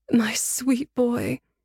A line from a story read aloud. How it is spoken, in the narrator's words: said tearfully